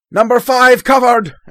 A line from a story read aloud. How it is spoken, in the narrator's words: shout out